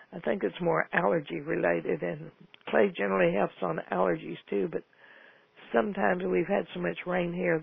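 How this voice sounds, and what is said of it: Slightly hoarse, froggy throat. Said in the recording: “I have a little frog in my throat.”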